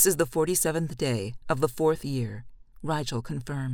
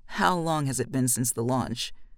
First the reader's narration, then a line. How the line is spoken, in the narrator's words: says, her voice like gravel